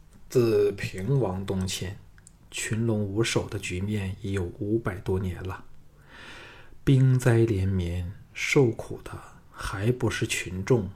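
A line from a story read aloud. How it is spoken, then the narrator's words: Sighing. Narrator (Chinese): 邹衍 叹道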